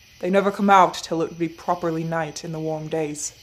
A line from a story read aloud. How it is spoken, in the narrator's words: he said gruffly